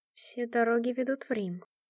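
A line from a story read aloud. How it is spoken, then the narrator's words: Muttering. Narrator (Russian): пробормотала я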